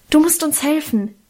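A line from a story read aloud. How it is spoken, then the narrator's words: Hasty call. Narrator (German): rief ich hastig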